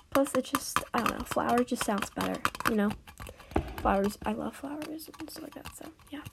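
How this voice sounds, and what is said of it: Raspy, hoarse voice. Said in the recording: “sorry my voice. It sounds, like, really raspy. ... I sound kind of like a dying horse”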